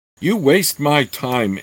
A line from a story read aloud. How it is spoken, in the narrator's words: Anthraxis said in a voice that coughed and choked